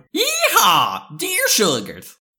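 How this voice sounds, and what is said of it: Put-on Texan accent. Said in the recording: “do you have a good impression of a Texan”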